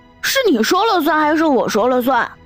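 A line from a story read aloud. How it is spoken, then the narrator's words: Roaring. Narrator (Chinese): 陶百川大吼一声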